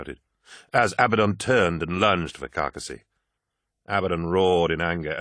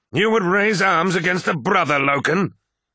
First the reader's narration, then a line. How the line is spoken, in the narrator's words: bellowed Abaddon